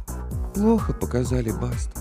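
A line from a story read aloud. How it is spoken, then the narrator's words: Glum reply. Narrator (Russian): уныло ответила ведьма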